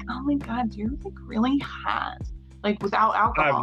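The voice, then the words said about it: Valley Girl accent. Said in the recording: “same accent that ... just did, the Valley Girl accent ... It's the reason I did that accent.”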